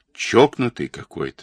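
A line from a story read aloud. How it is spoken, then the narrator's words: Plain. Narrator (Russian): сказал Денисов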